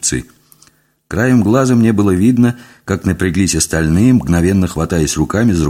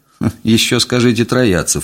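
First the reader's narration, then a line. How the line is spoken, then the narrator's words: Snorting retort. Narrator (Russian): фыркнул я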